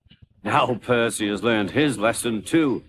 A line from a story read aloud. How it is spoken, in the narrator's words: he chuckled to himself